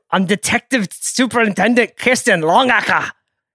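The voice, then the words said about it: Attempted Scottish accent. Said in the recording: “Do you think you can do a Scottish accent? Is that what that was? ... That was incredible. I quite like that, actually.”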